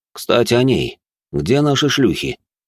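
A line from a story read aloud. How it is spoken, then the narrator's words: Displeased voice. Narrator (Russian): недовольным голосом произнес он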